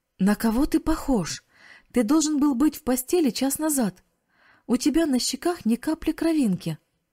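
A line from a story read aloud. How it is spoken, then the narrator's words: Aunt exclaiming. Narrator (Russian): воскликнула тетя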